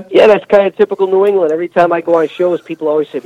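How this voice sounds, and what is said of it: Strong Northeastern American accent. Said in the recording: “Man, you sound like you're on The Sopranos or something ... I can't do anything about my accent”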